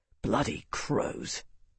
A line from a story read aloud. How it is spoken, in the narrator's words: the captain muttered in a tone that only Marcus was close enough to hear